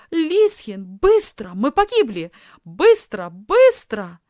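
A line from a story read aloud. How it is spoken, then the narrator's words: Shouted. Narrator (Russian): закричала Софи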